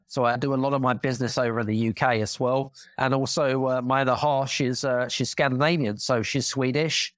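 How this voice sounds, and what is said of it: British accent. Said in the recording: “I've got a British accent, as you can tell”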